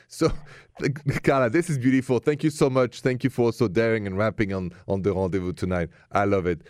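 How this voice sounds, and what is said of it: Thick accent. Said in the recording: “It was my thick accent.”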